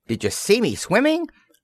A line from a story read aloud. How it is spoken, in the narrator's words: squeaked Roo excitedly